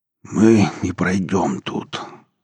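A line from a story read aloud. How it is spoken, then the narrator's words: Hoarse rasp. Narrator (Russian): прохрипел Семецкий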